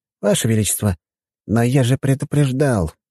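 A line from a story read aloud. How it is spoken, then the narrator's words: Sigh. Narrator (Russian): вздохнул Игнат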